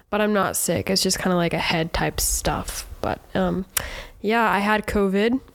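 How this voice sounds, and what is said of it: Sick, congested-sounding voice. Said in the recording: “I'm still sick, as you probably can hear in my voice.”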